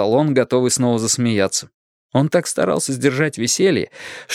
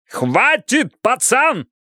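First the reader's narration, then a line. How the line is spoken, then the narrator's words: Yelling. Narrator (Russian): заорал Бидвелл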